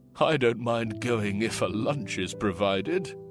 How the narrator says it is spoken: one of the men chuckled

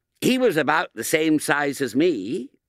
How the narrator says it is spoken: said William, in the bright, eager tone of one who is trying to help

